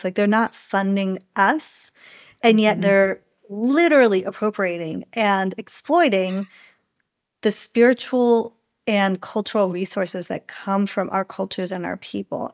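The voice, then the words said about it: Smiling while speaking. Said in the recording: “you can maybe hear the smile in my voice.”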